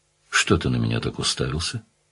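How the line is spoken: Very calm question. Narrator (Russian): спросила совсем спокойно

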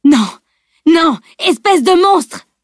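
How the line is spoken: Bellowed. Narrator (French): vociféra Bjorn

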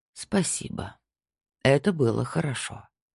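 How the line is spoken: Said softly. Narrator (Russian): мягко сказал Снайдер

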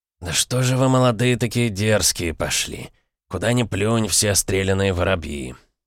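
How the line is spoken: Barely audible mutter. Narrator (Russian): пробормотал Воробей чуть слышно

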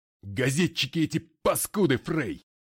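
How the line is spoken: Roared. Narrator (Russian): проревел он

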